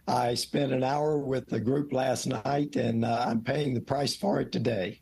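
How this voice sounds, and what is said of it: Hoarse voice. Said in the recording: “I'm very hoarse ... you are hoarse”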